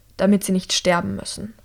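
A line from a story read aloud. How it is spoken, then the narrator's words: Curt young woman. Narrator (German): sagt die junge Medizinerin schroff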